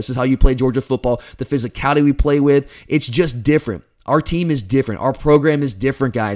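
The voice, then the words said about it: Hoarse, strained, failing voice. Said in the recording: “I don't know if you can hear it. I can feel it. My voice is, it's falling apart here. I don't have much left”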